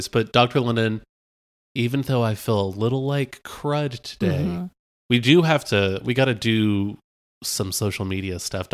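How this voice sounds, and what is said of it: Sick, rough-sounding voice. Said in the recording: “I've got the ostrich flu, so I apologize for my voice.”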